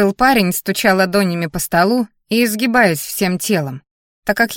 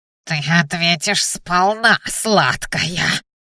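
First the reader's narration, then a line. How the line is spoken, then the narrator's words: Nasal whine. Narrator (Russian): гнусавил синенос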